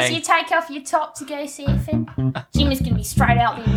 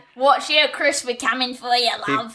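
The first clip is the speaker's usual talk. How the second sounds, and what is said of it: Put-on Australian accent. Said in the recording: “Is that your Australian accent? ... it went a little bit. It went a little bit funny there”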